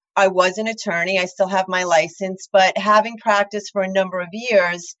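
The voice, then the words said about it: Very thick Long Island accent. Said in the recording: “I live in Long Island, in case anyone can't figure that out from my very thick accent.”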